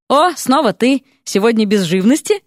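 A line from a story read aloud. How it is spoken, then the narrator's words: Smirking driver. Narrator (Russian): хмыкнул возница амнибуса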